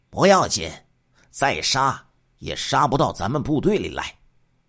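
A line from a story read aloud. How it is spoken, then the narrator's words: Sly smiling. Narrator (Chinese): 王洪波一听，狡猾的一笑说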